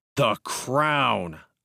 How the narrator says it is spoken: I said angrily

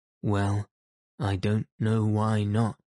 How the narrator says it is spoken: said the inspector

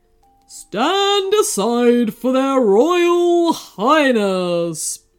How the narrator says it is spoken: boomed a loud voice

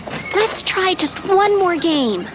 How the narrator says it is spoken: LaToya pleaded

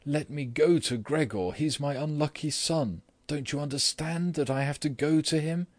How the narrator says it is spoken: she then cried

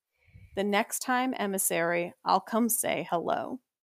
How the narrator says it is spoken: Cassian say to Nesta, his voice low and rough

